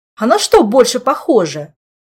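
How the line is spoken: Annoyed snapping. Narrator (Russian): Огрызнулся Мафей, раздосадованный подобным непониманием со стороны давнего друга

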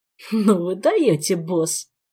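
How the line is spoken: Mischievous spirit giggling. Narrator (Russian): хихикнул вредный дух

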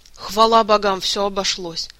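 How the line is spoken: Relieved sigh. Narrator (Russian): с облегчением вздохнул мэтр

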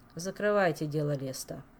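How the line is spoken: Sighing king. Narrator (Russian): вздохнул король

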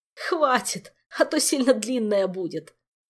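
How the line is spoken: Groaning. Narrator (Russian): простонал Жак

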